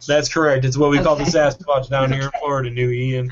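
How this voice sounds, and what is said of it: Newly adopted put-on accent. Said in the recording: “I don't like your new accent. ... It developed recently.”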